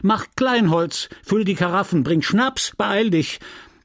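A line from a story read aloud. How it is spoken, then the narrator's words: Innkeeper woman shouting. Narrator (German): schrie die Gastwirtin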